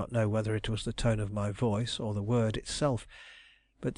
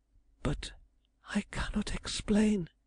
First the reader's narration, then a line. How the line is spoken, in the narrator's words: she murmured huskily